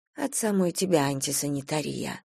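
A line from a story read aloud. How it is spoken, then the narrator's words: Muttering under her breath. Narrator (Russian): пробормотала себе под нос Надежда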